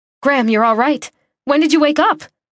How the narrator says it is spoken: My voice went up a notch, and I didn't care that I wasn't fit to keep my excitement contained

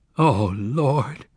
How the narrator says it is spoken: Zek moaned

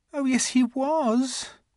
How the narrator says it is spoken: she said miserably

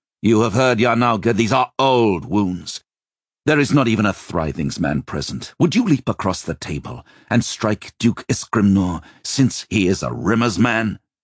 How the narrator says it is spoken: Joshua barked

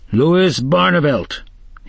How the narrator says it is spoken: he roared

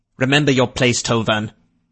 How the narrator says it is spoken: Rutherford said sharply

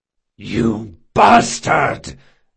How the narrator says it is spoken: Jean roared

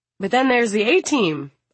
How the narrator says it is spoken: Amit says brightly

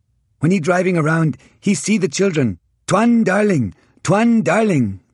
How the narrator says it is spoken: we all cried

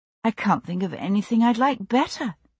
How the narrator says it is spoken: I said wistfully

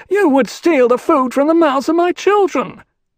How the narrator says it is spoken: The bulky figure spoke in a piping voice, the accent chillingly familiar to Lucilla

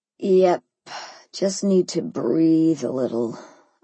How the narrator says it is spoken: I groaned

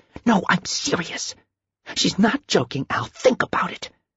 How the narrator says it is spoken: she hissed

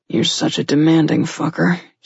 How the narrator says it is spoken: muttered irritably to himself

